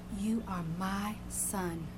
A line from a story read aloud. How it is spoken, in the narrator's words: she whispered to him